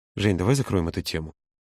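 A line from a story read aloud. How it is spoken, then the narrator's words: Calm request. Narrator (Russian): спокойно попросил Володя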